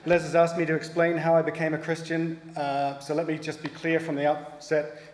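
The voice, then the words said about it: New Zealand accent. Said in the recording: “If you can't tell from my accent, I'm not from around here. I'm from New Zealand originally”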